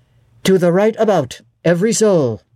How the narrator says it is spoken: cried the master

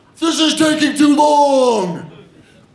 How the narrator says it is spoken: my coach yells

